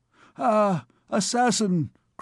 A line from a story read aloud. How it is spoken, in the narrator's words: cried the king